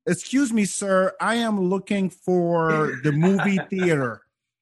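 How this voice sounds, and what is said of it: Put-on American accent. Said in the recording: “I put on my my my best American accent”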